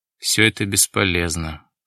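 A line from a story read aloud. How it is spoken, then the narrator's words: Said gloomily. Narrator (Russian): мрачно сказал Дронго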